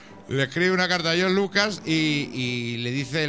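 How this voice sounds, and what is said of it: Usual voice. Nothing is said of it.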